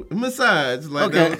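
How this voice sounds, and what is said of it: Put-on Italian accent. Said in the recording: “final Italian accent”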